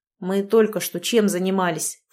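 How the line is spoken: Snort. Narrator (Russian): фыркнул я

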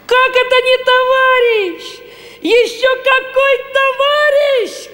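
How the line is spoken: Shout. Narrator (Russian): крикнул Нильс

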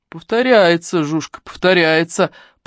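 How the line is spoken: Deep bass voice. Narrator (Russian): пробасил ее собеседник, невероятно толстый мужчина

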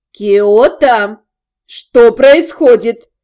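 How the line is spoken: Stern repetition. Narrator (Russian): Строго повторила тетя

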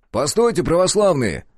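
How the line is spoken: Shouting while moving. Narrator (Russian): закричал я на ходу

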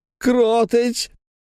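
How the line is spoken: Desperate howl. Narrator (Russian): взвыл Клякса

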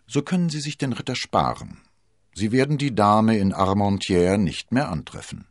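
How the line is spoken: Dry. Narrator (German): sagte Athos trocken

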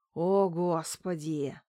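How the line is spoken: Groan. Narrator (Russian): простонал Макс

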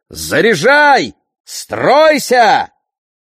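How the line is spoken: Shouting at full voice. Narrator (Russian): Они кричали во весь голос

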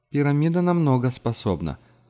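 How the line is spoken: Sigh. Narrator (Russian): вздохнула Маша

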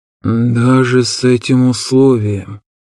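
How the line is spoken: Drawling. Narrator (Russian): протянул Шиарис

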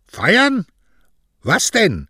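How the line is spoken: Widow hissing. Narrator (German): fauchte die Witwe

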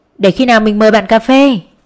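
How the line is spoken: Embarrassed, louder repetition. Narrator (Vietnamese): Xấu hổ đỏ mặt, lặp lại to tiếng hơn

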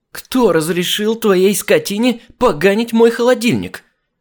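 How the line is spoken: Indignant shout. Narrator (Russian): крикнула она возмущенно

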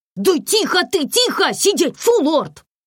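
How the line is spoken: Shouting. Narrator (Russian): Закричал на него Комарова

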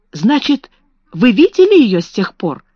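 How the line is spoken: Exclamation. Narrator (Russian): воскликнула Сара

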